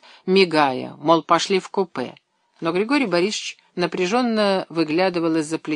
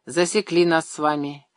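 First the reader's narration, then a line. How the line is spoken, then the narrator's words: Sullen mutter. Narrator (Russian): угрюмо пробурчал Шмелев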